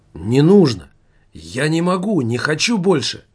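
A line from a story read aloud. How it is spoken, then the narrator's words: Exclaiming. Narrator (Russian): воскликнул Немаркетинг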